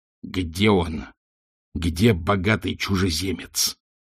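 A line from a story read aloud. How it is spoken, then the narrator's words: Hissing wizard. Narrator (Russian): прошипел волшебник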